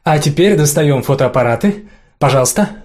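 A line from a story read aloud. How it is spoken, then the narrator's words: Woman, heavy accent. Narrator (Russian): послышался женский голос с сильным акцентом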